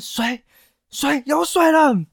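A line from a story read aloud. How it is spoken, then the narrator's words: Soldier shouting. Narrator (Chinese): 士兵 大喊说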